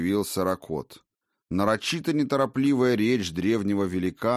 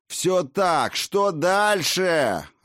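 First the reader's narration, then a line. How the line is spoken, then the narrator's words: Near growl. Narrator (Russian): Ракот почти рычал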